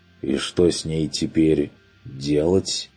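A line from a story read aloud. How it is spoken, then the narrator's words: Uncertain question. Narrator (Russian): неуверенно поинтересовался Бруно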